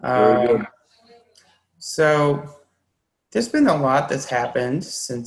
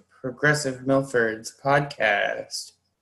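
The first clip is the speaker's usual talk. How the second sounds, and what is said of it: Announcer voice. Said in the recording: “That's my announcer voice.”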